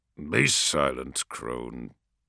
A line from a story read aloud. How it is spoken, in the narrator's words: growls a harsh voice